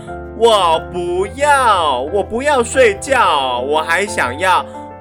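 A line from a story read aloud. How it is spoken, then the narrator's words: Loud. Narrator (Chinese): 贝蒂大声地说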